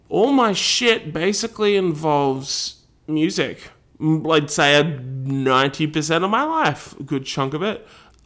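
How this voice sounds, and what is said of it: Australian accent. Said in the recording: “I live in Australia, as you can tell by my voice.”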